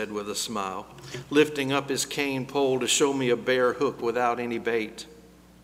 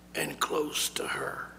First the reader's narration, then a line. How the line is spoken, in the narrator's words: so quietly I almost didn't hear it, he added